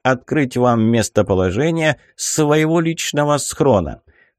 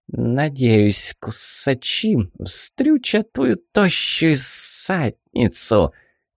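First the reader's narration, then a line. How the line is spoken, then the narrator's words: Venomous hissing. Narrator (Russian): Зашлась в ядовитом шипении фиалка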